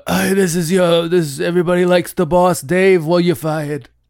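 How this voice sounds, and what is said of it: Poor imitation of another person's voice. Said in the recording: “That's a very bad Trump impression. ... No, that was one of the worst.”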